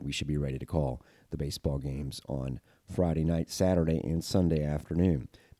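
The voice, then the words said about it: Slightly congested, off-sounding voice. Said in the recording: “my voice is a little off. Just had a little bit of a head cold”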